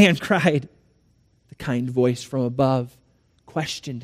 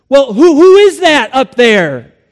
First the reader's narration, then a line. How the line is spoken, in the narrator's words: cried